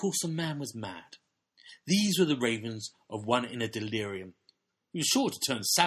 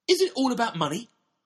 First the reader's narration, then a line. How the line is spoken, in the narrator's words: cried out